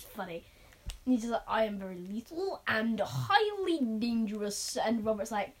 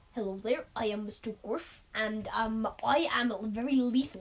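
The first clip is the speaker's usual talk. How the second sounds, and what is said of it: Badly done put-on character accent. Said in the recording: “he has this hilarious accent ... This is a horrible accent, guys, I can't do accents”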